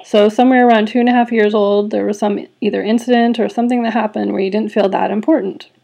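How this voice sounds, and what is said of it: Voice cracking with emotion. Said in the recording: “you can notice that my voice is cracking a little bit ... I'm just feeling the little lump in my throat”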